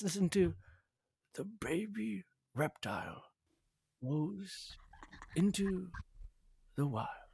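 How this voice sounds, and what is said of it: David Attenborough nature narrator impression. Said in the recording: “I've tried to do a David Attenborough impersonation before, but you nailed that.”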